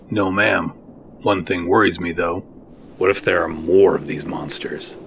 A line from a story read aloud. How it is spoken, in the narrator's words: Seven took a deep breath and sighed it out